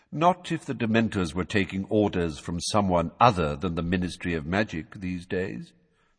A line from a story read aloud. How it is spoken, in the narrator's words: said Dumbledore calmly